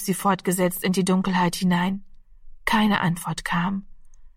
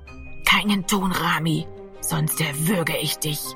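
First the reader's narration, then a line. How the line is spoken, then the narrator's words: Whispering close to ear. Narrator (German): flüsterte Gero an seinem Ohr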